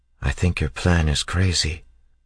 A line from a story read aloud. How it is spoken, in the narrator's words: she said quietly